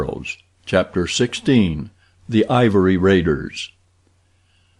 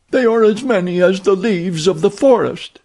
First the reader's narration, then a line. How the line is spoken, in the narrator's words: cried one of the women